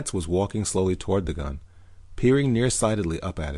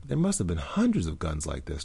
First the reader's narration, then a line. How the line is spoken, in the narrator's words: Dorley murmured